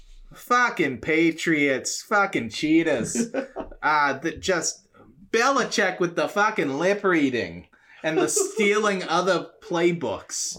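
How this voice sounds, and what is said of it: Put-on Boston accent. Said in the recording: “I don't know why he's got a Boston accent if he's so anti-Boston, but my Godzilla has a Boston accent.”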